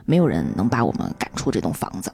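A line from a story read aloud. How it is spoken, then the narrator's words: Murmuring to themselves. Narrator (Chinese): 他们 喃喃自语道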